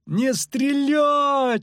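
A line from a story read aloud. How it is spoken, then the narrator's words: Yelling. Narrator (Russian): орал Лютик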